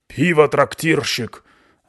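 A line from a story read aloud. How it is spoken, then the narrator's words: Hoarse, low bark. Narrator (Russian): рявкнула Кабальдеса хриплым низким голосом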